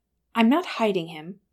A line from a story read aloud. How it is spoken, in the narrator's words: Bilbo said sharply